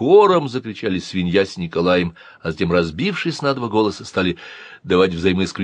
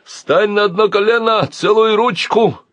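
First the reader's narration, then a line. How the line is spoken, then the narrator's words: Shouting. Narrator (Russian): кричал Николай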